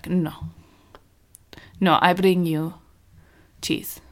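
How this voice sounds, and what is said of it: Put-on Russian accent. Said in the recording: “I don't know why I went into a Russian accent. It's my default foreign accent.”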